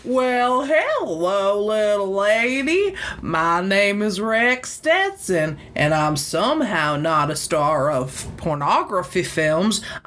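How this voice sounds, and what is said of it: Put-on thick Southern accent. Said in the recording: “put on like a slight Southern affectation in my voice ... It's a thicker accent than I'm giving him credit for ... it's supposed to be like really put on”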